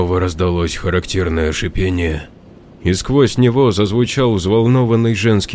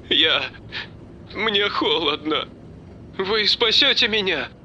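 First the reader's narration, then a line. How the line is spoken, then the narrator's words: Sobbing girl. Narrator (Russian): Девушка всхлипнула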